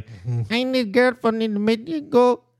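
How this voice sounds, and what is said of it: Put-on Mexican accent. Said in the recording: “that's how good I am at the Mexican accent.”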